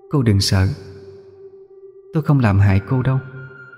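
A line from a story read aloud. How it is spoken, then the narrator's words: Soft eerie echoing voice. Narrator (Vietnamese): Cô ấy khẽ cất giọng âm u, vàng vàng trong gió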